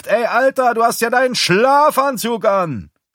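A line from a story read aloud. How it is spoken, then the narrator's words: Young man calling out. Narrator (German): ein junger Kerl ruft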